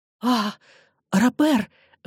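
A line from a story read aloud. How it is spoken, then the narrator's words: Exclaiming. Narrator (Russian): воскликнула она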